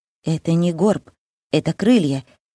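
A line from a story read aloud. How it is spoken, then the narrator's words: Quiet objection. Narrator (Russian): тихо возражает он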